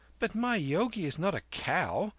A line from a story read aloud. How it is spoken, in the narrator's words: said Kim gravely